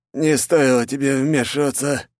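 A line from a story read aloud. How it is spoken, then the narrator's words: Old man's wheeze. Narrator (Russian): прохрипел дед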